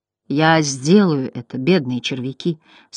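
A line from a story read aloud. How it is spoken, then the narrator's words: Plain. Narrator (Russian): сказал Бастиан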